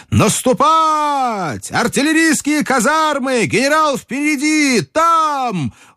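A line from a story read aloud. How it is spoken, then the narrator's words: Shouted. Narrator (Russian): он закричал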